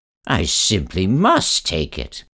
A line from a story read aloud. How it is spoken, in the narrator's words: cried the very old man